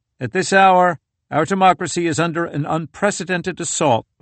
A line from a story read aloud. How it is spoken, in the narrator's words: Biden began, speaking in a level tone